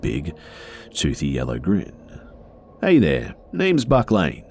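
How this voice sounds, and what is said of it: Stereotypical Australian accent, friendly. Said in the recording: “He had a comically stereotypical Australian accent, but he did sound friendly.”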